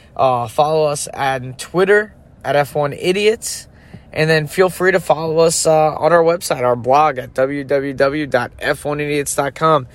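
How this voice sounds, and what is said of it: Voice not at its best. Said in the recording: “my allergies have been killing me this week, so my voice isn't that great”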